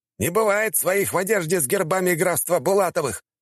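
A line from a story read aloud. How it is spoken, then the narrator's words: Angry shouting. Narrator (Russian): злобно прокричали мне в ответ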